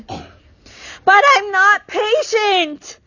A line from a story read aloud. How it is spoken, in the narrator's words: Meg cried passionately